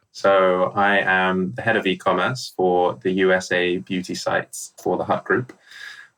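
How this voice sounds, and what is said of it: Strong American accent. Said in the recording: “a very strong American accent”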